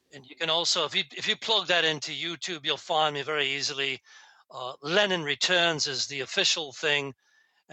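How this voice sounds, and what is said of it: British Queen's English accent. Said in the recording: “I'm the guy, obviously, who speaks the proper Queen's English. I don't have a Spanish accent”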